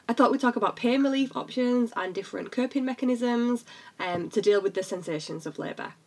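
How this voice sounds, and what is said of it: British English accent. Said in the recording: “I'm based in the UK, obviously, listen to this accent.”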